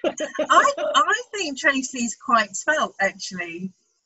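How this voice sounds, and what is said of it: Imitates another person's voice. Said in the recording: “my impression of Tracy”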